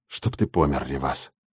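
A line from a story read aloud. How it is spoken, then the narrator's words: Breathed out. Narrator (Russian): выдохнул я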